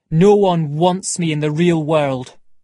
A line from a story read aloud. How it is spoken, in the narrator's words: he said